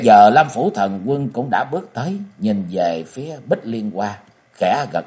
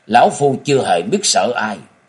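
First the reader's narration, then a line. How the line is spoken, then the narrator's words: Cold laughing old man. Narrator (Vietnamese): Trung Nam Quái Đạo Như Ngộ cười lạnh lùng nói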